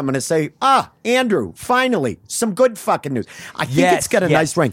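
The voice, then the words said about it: Put-on New England accent. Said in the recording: “a little bit of a New England accent ... a sort of fucking Connecticut Turnpike accent that you're speaking with”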